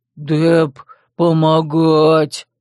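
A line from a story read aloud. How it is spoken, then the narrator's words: Growled. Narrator (Russian): Рыкнул Деп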